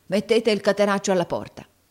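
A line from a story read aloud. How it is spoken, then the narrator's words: Yelled. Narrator (Italian): urlò Squeers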